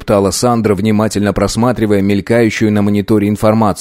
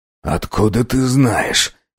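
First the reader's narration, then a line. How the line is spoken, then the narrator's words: Hoarse, curt. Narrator (Russian): Хрипло спросил капитан, позабыв о своей обычной вежливости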